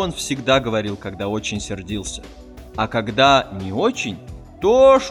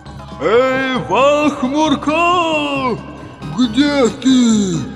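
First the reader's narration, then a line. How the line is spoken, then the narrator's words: Shout. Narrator (Russian): крикнул Кибулька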